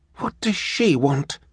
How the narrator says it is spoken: asked in a quiet voice

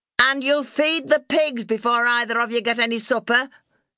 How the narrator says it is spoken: shouted

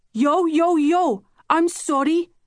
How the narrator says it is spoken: she exclaimed, as though she'd personally caused my suffering

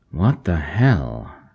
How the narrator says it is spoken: North muttered

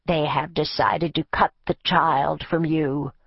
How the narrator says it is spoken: the crone said, her voice low and melodious, a comforting counterpoint to her words

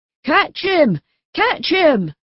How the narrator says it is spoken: cried Geppetto

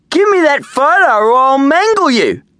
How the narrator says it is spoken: roared Darren

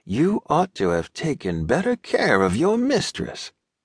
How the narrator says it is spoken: he asked in a subdued voice, adding with assured severity

